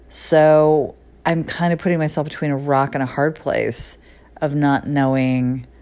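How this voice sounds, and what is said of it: Creaky vocal fry voice. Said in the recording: “I feel like there's a lot of vocal fry in my voice. I tend to do these when I'm a little bit tired ... I could just hear that sound at the bottom of my voice when I'm kind of finishing a sentence.”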